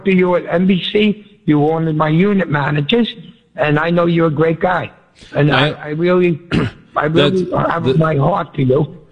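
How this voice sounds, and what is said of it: Mumbling, muffled speech. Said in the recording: “You got to talk into the phone. What are you doing? You're mumbling all over the place. ... No, you're mumbling. ... I had a Ciroc in my mouth.”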